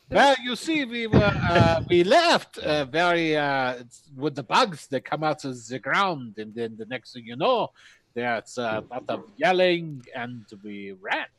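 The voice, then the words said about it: Put-on German accent. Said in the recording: “German, if I remember correctly ... He's doppelgangering in his accent.”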